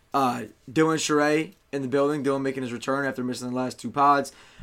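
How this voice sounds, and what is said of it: Hoarse, partly lost voice. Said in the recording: “my voice is a little gone”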